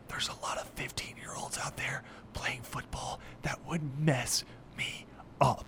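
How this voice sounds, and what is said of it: Speaks very quietly. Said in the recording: “I want to say this really quietly.”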